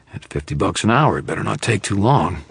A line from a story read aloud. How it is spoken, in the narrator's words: Carmichael growled